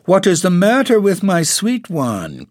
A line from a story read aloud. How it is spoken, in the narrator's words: cried Dorothy